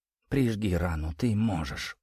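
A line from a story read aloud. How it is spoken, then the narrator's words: Whispered. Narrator (Russian): прошептала она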